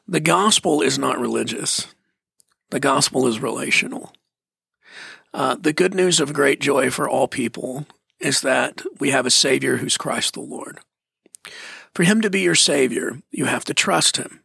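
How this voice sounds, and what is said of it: Fast speech. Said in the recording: “I'm saying this quickly, so I'm going to slow down just a little bit.”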